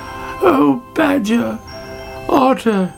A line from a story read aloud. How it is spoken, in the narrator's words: she cried